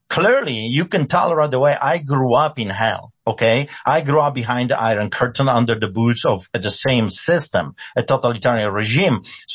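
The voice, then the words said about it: Speaks with a foreign accent. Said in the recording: “you should pay attention to my accent”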